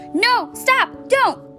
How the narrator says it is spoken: shouted Lucille

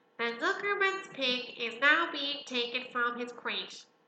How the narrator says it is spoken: boomed the voice of the loudspeaker

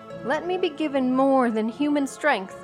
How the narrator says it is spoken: cried

